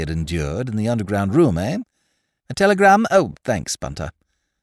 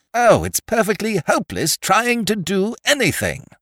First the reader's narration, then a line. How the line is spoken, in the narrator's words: exclaimed without the least reason